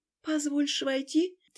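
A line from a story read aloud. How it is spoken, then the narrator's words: Quiet question. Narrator (Russian): тихо спросила Шайла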